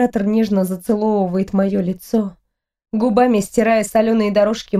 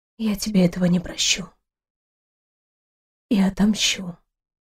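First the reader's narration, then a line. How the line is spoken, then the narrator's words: Quiet, hoarse. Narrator (Russian): тихо, хрипло произнесла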